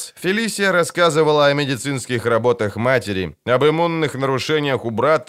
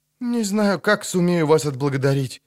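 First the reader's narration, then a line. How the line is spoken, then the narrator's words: Calmer mumble. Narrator (Russian): пробормотала Фелисия, заметно успокоившись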